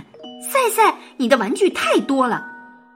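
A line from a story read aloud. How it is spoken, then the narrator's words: Exasperated shouting. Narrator (Chinese): 赛赛的妈妈忍无可忍了，她一边上楼一边喊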